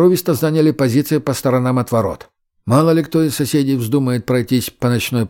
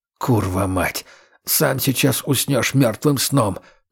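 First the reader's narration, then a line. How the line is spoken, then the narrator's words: Hiss. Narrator (Russian): прошипел поляк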